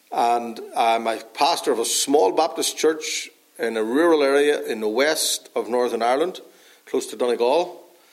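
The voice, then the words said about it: Northern Irish accent. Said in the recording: “That's where I'm from originally, if you can't tell by my accent. From Northern Ireland.”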